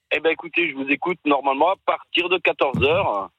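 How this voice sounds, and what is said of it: Noticeable regional French accent. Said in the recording (French): “on adore cet accent”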